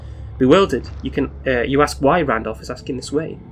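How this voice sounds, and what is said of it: Usual voice. Nothing is said of it.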